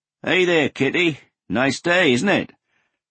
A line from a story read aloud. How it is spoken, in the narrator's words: Bored, Hoshino called out